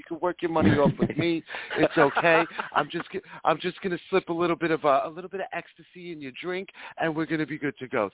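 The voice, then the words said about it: Impression of a film character. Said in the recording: “my best impression of Carlos from Pretty Woman”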